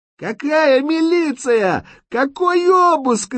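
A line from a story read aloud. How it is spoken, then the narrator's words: Woman's frantic screaming. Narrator (Russian): истошно кричала высокая, крупная, черноволосая женщина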